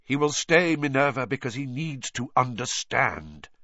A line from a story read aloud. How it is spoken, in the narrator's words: said Dumbledore curtly